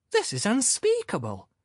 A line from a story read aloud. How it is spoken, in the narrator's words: exclaimed the youth who had turned out to be a woman